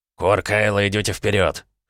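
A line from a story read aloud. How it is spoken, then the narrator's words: Cold command. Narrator (Russian): холодным тоном распорядился Кринк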